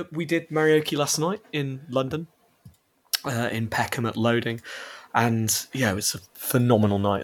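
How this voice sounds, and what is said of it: Slightly hoarse voice. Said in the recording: “my voice is a little hoarse this morning”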